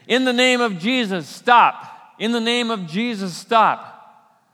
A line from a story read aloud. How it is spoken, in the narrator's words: yelling to the gladiators